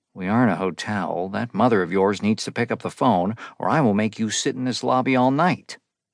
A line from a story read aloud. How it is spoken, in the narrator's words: the receptionist muttered